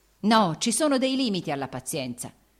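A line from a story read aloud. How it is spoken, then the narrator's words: Shouted. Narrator (Italian): egli gridò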